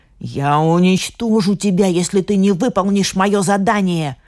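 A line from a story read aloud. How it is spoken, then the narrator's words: Spiteful hiss, old woman. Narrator (Russian): злобно зашипела старуха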